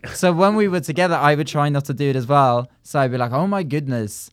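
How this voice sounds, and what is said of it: Norwegian accent. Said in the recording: “it sounds weird in a Norwegian accent”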